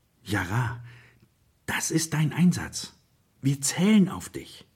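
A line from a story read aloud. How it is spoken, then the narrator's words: Expectant voice. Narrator (German): sagt mit erwartungsvoller Stimme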